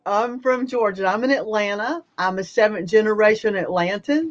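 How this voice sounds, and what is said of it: Southern Georgia accent. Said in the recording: “I'm from Georgia. A lot of people want to know, okay, where's that accent?”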